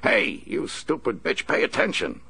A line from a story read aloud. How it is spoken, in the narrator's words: Horton snapped